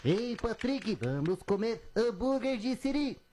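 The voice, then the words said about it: Imitates SpongeBob cartoon voice. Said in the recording (Portuguese): “é o Bob Esponja ... parecido ... muito boa a imitação”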